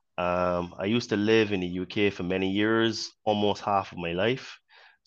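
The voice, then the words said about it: Mixed Caribbean and British accent. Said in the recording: “I was born in Barbados, so hence why I have a bit of a Caribbean accent ... So you also sound a little bit British at the same time ... you sound a little like you like like British Jamaican ... my accent is so mixed ... I have a bit of a Caribbean twang”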